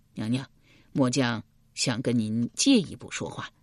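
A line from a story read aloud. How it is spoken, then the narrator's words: Heavy sigh. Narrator (Chinese): 易牙重重的叹了一口气，道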